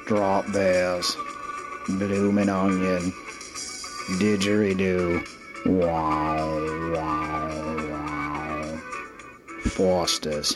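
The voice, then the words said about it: Put-on Australian accent. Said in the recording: “Sexy Things to Say with an Australian Accent.”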